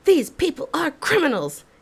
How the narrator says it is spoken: he would yell at me

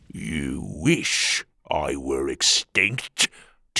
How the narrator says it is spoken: Tuga growled

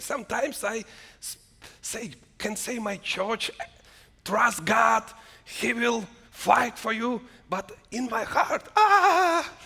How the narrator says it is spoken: I cried to God

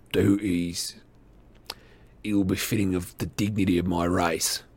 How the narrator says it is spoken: replied the goblin, his voice rougher and less human

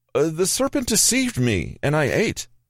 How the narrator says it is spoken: Eve cried

